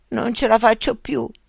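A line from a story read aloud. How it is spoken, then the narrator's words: Groan. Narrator (Italian): gemette Remo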